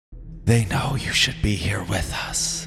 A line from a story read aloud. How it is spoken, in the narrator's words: whispering voice told